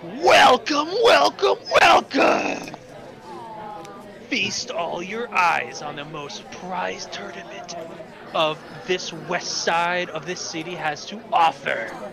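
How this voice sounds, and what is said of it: Screaming hype announcer voice. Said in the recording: “the most hypest dude ever try to hype up this match ... all you hear is just a screaming going”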